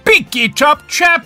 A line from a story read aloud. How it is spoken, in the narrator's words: he shouted